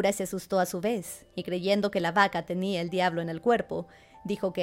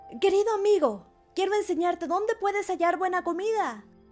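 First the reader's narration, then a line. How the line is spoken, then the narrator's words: Muffled shout from inside. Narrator (Spanish): desde su vientre, donde estaba encerrado, le gritó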